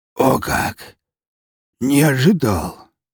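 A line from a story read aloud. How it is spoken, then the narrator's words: Hoarse wheeze. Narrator (Russian): прохрипел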